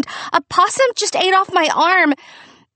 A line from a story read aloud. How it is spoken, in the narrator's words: I screamed